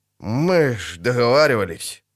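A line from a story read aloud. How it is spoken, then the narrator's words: Uncertain grumble. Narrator (Russian): неуверенно проворчал толстяк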